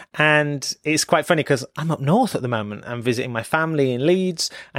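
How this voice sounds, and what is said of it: Strong northern English accent. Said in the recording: “my northern accent might be a little bit stronger”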